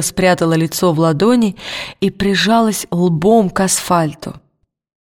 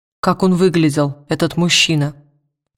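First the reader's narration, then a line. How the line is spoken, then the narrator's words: Plain question. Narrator (Russian): спросил Уилл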